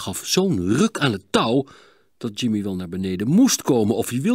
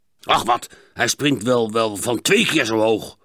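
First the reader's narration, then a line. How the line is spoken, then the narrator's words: Grumbling man. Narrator (Dutch): bromde de man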